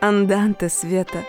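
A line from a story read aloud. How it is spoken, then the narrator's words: Low velvety unfamiliar voice. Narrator (Russian): произнес он низким бархатным голосом, совсем не похожим ни на его обычный, ни на сценический, когда он выступал в роли Парфеновой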